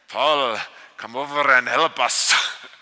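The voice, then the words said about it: Put-on Russian accent. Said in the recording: “this guy with like a Russian accent. ... they just want to pick something that sounds foreign.”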